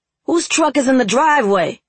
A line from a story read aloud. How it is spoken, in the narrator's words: Rome shouted